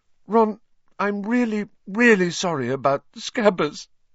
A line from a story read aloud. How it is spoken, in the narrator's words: she sobbed